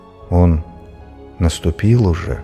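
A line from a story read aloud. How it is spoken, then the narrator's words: Meek, sad, winged lion. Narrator (Russian): кротко и грустно сказал крылатый лев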